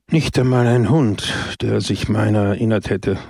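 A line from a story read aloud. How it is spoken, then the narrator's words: Sighed. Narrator (German): seufzte Don Camillo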